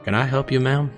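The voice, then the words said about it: Strong country accent. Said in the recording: “he said in a strong country accent.”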